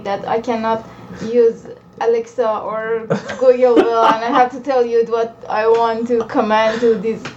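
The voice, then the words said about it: Non-native English accent. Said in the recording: “accent like me”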